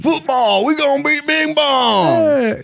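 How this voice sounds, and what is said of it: Put-on Southern accent, shouting. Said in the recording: “In my head, he's got a southern accent.”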